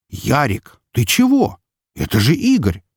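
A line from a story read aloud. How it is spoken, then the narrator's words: Mock indignant exclamation. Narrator (Russian): воскликнул с притворным возмущением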